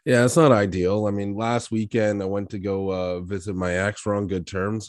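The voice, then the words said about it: Raspy voice with a cold. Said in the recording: “I'm a little bit under the weather. You probably hear my voice there. I'm fighting a cold. ... A little raspy, eh?”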